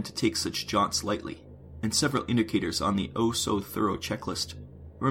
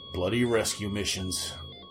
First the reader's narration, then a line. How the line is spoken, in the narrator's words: Price growled